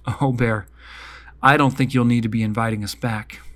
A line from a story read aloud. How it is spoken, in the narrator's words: Good but Grumpy Owl laughed